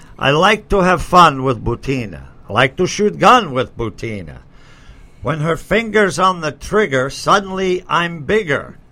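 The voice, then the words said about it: Put-on Russian accent. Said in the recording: “I'll even provide Ivan's Russian accent.”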